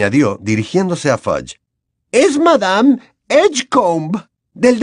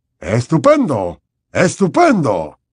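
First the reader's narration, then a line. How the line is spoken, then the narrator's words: Enthusiastic exclaiming. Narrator (Spanish): exclamó Fudge, entusiasmado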